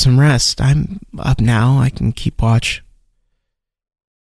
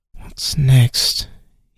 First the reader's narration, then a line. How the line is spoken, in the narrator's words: He muttered